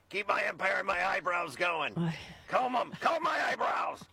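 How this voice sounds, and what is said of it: Imitates another person's voice. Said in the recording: “that your Fred Trump impression?”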